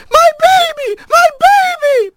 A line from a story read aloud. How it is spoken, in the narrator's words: over and over